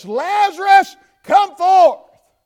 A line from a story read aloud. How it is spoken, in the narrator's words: he cried with a loud voice